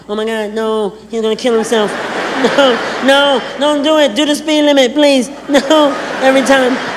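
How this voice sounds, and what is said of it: Imitates a panicked woman's voice. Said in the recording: “my impression of women”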